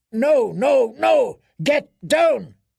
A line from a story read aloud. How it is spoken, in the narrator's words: His answered roar was full of fear and fury, full of pain